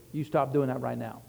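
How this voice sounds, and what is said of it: Stern, deep, direct commanding voice. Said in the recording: “I wouldn't yell, but they knew when I put in my big boy voice ... Very direct.”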